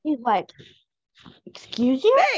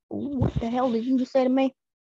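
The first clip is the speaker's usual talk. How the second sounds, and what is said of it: Imitates a character's accent. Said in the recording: “my Elliot accent just came up”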